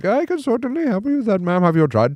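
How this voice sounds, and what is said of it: High-pitched put-on Indian accent. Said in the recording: “your Indian impression ... The secret to the Indian guy thing is ... do the head bobble ... like, the high pitch”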